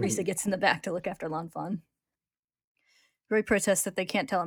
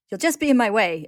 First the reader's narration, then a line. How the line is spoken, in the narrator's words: Ed shouts